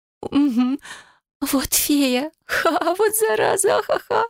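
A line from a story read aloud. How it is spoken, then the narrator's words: Laughing. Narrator (Russian): продолжала хохотать она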